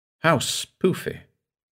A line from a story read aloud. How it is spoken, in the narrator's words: said Joan softly